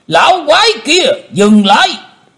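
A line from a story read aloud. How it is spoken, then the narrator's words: Thunderous roar. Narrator (Vietnamese): Một giọng quát tở trời gầm phát ra từ miệng của Tử Diễn Côn Luân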